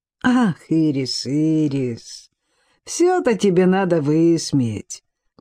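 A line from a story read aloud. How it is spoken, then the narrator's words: Sighing. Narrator (Russian): Кан вздохнул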